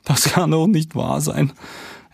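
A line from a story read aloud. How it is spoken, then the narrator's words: Wailing. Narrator (German): jammert Sebastian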